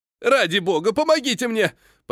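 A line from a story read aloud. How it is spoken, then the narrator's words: Panicked shout. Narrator (Russian): паническим тоном прокричал трактирщик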